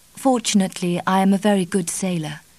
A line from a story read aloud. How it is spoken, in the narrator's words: Kitty answered